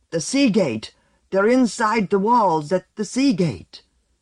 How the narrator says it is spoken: out of the blizzard a grotesque figure plastered with red-streaked white burst on them, shouting

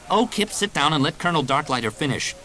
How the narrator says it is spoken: Jaina snapped

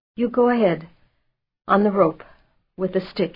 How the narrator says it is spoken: gasped

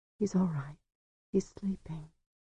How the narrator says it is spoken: she whispered

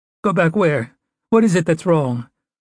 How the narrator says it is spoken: Her voice was thin and high

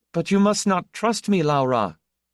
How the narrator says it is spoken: he said desperately, all pretense of irony abandoned

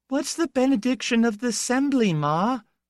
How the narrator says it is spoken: the gap-toothed daughter squealed

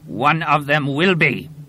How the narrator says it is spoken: the warrior snarled

